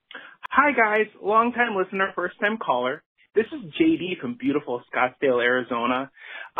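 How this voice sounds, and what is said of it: Midwestern American accent. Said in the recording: “you sound like a Midwesterner ... the accent's a little bit, Midwest, I think. ... Sounds pretty Wisconsin-y to me.”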